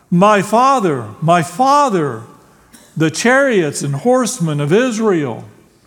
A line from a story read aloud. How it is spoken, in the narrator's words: Elisha cried out